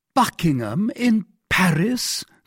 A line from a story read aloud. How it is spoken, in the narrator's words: cried he